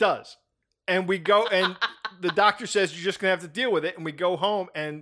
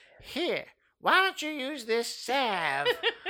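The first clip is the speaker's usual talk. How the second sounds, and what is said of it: Imitates another person's voice. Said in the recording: “my Mabel Johnson impression”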